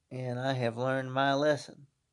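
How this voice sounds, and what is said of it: Put-on Southern US accent. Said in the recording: “How's that for a good Southern accent?”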